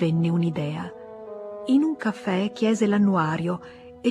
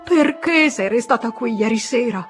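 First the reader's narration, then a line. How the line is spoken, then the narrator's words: Shouting. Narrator (Italian): Gridava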